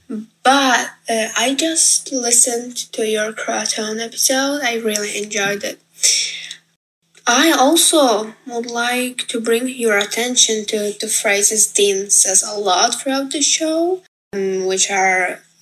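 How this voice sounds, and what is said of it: Non-native English accent. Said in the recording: “I want to apologize for my accent. English is not my first language.”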